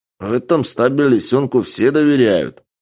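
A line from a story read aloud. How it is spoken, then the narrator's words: Low booming. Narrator (Russian): прогудел коптерщик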